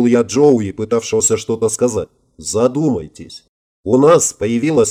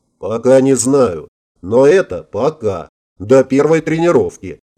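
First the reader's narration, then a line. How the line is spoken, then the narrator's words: Loud laughter. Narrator (Russian): захохотал Майкл Клифф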